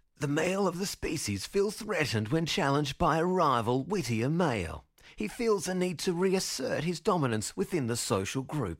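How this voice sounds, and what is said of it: Bad David Attenborough impersonation. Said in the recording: “You need to imagine David Attenborough's voice at this point. Prepare yourself for the worst ever David Attenborough impersonation.”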